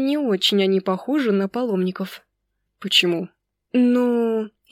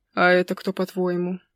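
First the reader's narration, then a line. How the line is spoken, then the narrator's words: Grumbling. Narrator (Russian): проворчал Никсер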